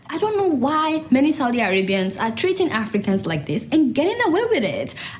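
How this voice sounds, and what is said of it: Woman speaking with a noticeable accent. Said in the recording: “She has an accent”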